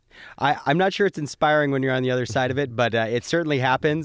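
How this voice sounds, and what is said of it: Voice slightly affected by a cold. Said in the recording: “I'm fighting a bit of a cold, so hopefully that helps my radio voice. But if I cough here and there”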